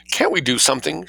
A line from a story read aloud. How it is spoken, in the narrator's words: she persisted tearfully